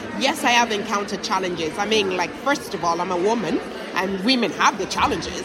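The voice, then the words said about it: Foreign accent in English. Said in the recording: “I'm a black woman with an accent. ... as a foreign woman in this country”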